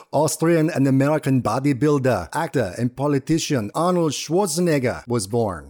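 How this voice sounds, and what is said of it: Passable Arnold Schwarzenegger Austrian accent impression. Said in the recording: “That was my best Austrian accent. I will never be cast as an Arnold impersonator. ... you're definitely B-League. That was pretty solid ... it's not the worst Arnold Schwarzenegger impersonation that has ever been, but definitely not the best.”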